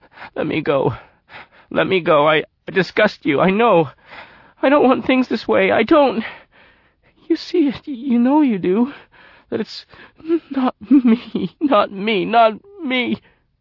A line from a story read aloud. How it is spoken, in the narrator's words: sobbing without tears, exclaiming